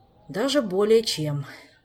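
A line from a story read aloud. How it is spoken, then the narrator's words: Sighing. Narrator (Russian): вздохнул Кантер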